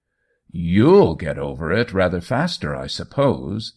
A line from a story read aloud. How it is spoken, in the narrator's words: Spencer Coyle satirically exclaimed